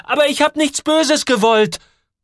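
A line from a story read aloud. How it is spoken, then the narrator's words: Shouting. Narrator (German): schreit Joel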